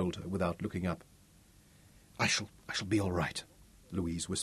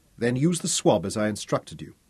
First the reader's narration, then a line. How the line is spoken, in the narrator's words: Robin snapped